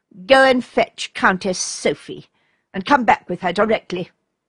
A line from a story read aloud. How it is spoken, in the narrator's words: replied her cousin, so sternly